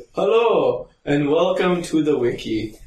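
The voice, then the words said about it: Cartoonish Mario-style accent. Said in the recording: “What accent are you allegedly doing for Gulikov? It sounded like Mario... It's a Mario and Luigi.”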